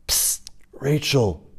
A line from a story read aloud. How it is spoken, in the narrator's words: shout whispered